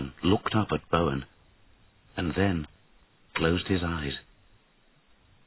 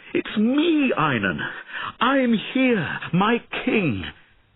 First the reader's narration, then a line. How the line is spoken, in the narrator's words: Sir Bowen cried